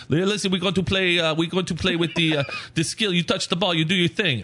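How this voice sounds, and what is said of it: Put-on Brazilian accent. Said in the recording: “I don't know if that's a real Brazilian accent ... If I closed my eyes, I would have swore I was in Brazil.”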